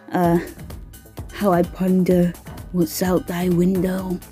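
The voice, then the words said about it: Mock old English voice. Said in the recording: “my impression of old English”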